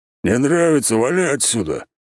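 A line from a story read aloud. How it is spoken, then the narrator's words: Growled. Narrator (Russian): рыкнул он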